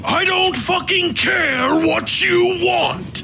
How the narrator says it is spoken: Tolliver shouted

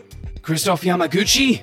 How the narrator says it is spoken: she yelled down the steel-lined hallway

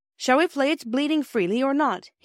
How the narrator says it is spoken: he asked cheerfully

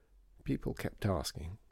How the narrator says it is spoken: said Pansy sadly

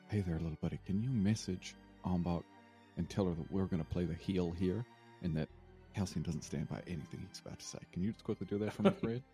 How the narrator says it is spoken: whisper in his ear

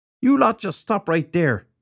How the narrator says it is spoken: he shouted

